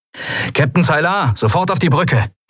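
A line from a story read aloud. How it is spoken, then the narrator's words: Calling through speaking tube. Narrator (German): rief Sephiron in eines der Sprechrohre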